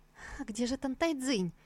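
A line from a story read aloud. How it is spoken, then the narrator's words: Frightened girl babbling. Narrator (Russian): Девушка, ужаснувшись тому, что обитательница опочивальни фамильярно называет по имени самого императора, испуганно пролепетала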